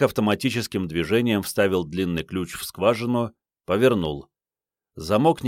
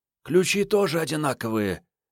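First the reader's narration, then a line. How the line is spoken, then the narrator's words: Husky trembling voice. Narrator (Russian): хрипловатый голос Маньки дрогнул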